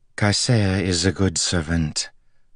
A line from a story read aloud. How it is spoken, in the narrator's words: the woman said evenly